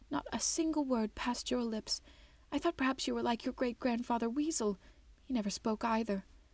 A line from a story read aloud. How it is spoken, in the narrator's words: sighed